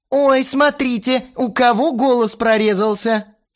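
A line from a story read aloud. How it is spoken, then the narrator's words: Mocking laughter. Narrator (Russian): Ширли издевательски захохотала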